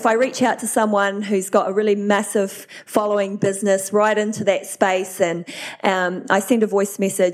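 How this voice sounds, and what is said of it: New Zealand accent. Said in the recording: “you're a Kiwi. I love a Kiwi voice”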